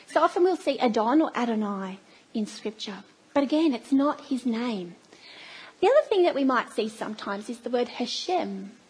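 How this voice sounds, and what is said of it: Australian accent. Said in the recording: “my very bad accent. It's a very Australian twang”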